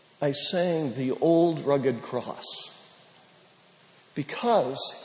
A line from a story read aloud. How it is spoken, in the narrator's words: said